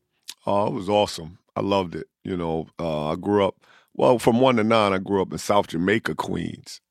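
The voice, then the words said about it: Strong New York accent. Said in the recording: “got that real New York accent.”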